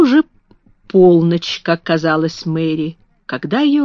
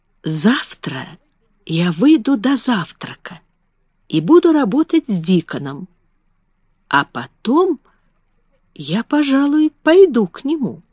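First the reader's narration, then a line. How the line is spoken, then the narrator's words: Mumbled. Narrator (Russian): она пробормотала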